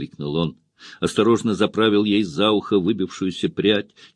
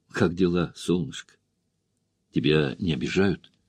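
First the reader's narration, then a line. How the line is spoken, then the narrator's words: Quiet, cautious, longing voice. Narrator (Russian): Ее голос прозвучал тихо, недоверчиво и осторожно, лишь слегка прерываясь от нетерпения и тоски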